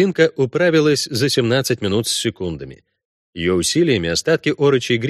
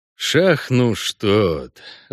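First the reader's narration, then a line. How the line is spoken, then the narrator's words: Annoyed sigh. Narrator (Russian): вздохнул Геральт с досадой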